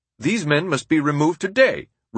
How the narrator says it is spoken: Roosevelt exclaimed

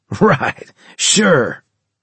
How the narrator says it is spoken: he laughed

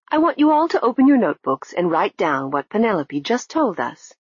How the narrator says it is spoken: she said brightly

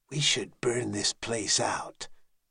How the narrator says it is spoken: Gyrol muttered

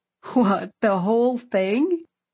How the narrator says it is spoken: I laughed too

